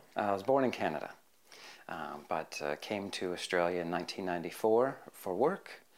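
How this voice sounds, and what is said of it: Non-Australian accent. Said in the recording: “you have an accent, so you're obviously not from Australia”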